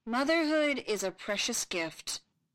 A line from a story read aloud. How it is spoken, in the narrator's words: Ben intoned solemnly